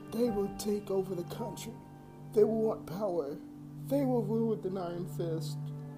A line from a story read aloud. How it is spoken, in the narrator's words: my grandmother cried out